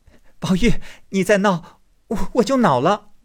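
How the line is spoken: Breathless laughter. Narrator (Chinese): 黛玉笑得喘不过气来，口里说

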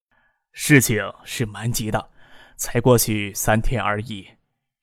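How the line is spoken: Soft sigh. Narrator (Chinese): 江上元轻轻一叹

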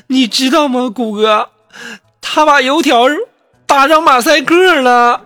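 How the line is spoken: Crying. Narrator (Chinese): 苏木一下就哭了，说

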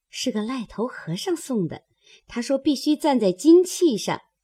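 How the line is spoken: Laughing. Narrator (Chinese): 莺儿笑道

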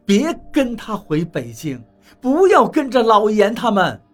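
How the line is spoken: Shouting. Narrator (Chinese): 我喊道

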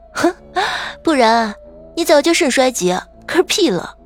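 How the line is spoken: Laughing. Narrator (Chinese): 我笑着说

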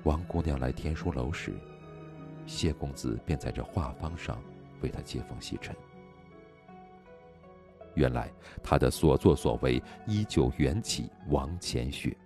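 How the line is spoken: Soft voice. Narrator (Chinese): 轻声道

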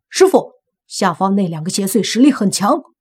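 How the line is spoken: Loud shout. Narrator (Chinese): 李健大喊一声

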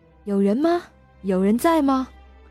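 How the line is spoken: Happy loud shout. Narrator (Chinese): 他高兴地大声喊道

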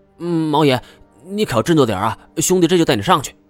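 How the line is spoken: Shouting. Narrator (Chinese): 金锁 嘴里还喊着

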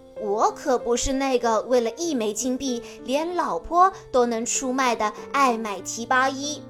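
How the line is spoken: Deliberately loud. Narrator (Chinese): 阿凡提 故意大声地说

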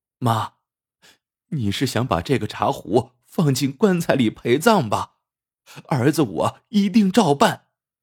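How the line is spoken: Choked with sobs. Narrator (Chinese): 智孝 哽咽着对秦奶说

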